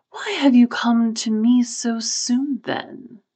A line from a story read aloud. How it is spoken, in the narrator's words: inquired, amid a chorus of whispers from the other ghosts